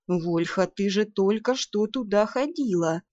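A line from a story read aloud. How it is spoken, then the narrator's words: Gentle reminder. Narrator (Russian): мягко напомнил вампир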